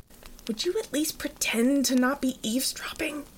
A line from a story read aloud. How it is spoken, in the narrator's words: Jackie whispered